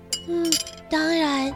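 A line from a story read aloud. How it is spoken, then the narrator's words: Quiet. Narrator (Chinese): 莎拉小声地告诉贝奇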